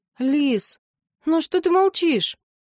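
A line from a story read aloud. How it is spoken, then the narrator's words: Sighing young lad. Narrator (Russian): Паренек вздохнул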